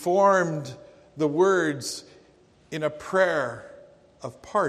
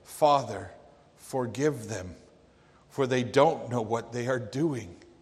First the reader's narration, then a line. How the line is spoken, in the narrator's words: As he gasped for air, Jesus said